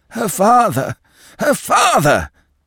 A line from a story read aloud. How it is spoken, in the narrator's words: moaned the old doctor